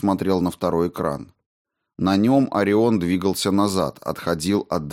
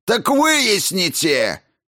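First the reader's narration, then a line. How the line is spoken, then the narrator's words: Barking official. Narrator (Russian): рявкнул замдиректора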